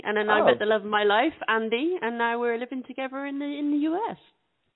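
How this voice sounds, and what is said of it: British accent. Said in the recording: “you have a lovely accent ... I'm from the UK, my darling, originally”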